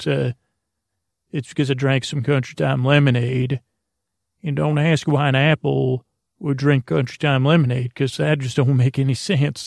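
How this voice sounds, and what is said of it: Put-on country accent. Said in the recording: “that country accent”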